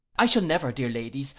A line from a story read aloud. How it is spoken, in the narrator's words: I exclaimed, relieved of an immense load of apprehension